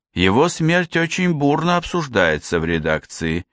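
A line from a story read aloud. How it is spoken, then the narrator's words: Uncertain. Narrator (Russian): неуверенно произнесла Аника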